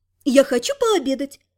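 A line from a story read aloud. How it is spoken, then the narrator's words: Cheerful smiling. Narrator (Russian): весело улыбнулась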